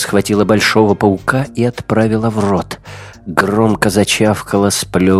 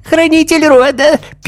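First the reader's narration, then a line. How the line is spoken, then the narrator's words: Squeaky mocking mimicry. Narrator (Russian): писклявым голосом передразнила ее хозяйка пауков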